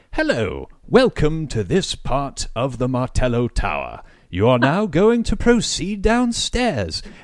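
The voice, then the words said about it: Put-on British accent. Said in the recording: “That's a pretty great British accent.”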